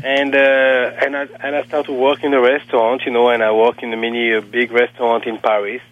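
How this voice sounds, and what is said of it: Heavy non-native accent in English. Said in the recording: “I'm still a very bad accent.”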